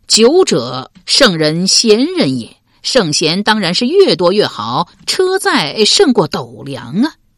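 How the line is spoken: Laughing reply. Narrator (Chinese): 刘玲笑答道

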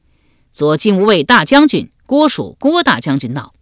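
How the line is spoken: Loud announcement. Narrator (Chinese): 有人高声叫道

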